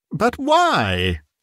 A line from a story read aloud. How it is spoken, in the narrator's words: cried Scrooge's nephew